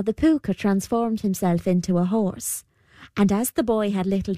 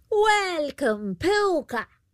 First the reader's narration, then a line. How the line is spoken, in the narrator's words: she called out